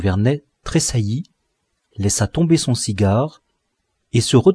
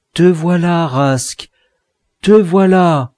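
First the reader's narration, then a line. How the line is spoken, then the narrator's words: Exclaimed. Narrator (French): il s'écria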